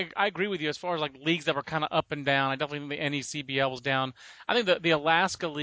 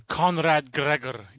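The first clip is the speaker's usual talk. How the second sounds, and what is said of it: Weak put-on Scottish accent. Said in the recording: “I don't think that's a good Scottish accent”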